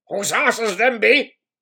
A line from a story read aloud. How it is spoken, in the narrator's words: he grunted at Sedlang